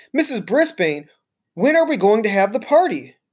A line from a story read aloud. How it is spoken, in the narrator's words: Heidi blurted out